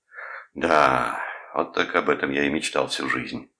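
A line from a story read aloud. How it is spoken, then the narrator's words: Sighing. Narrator (Russian): вздохнул Том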